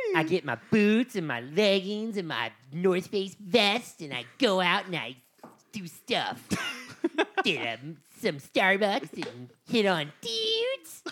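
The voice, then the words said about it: Impersonating a stereotypical wintertime girl. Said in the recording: “That was an impersonation of every girl in the winter.”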